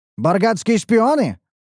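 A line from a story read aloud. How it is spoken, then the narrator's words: Barked command. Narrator (Russian): рявкнул один из командиров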